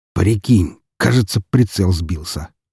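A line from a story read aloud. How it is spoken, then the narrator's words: Muttered. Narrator (Russian): пробормотал он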